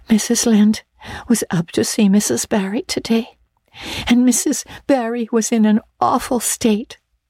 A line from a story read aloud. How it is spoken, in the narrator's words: she wailed